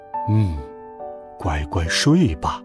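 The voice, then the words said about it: Soft quiet voice. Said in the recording (Chinese): “熊爸爸小声说道”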